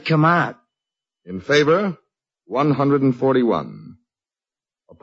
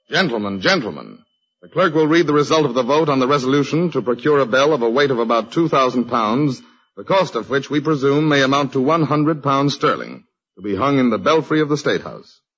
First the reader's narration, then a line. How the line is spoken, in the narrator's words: he cleared his throat and said sternly